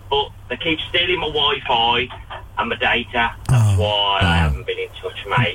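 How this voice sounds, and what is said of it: Put-on Brummie accent. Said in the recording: “As you can tell by my accent ... Brummy Taron.”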